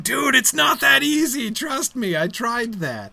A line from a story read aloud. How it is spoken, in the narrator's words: in the background Glorfindel shouting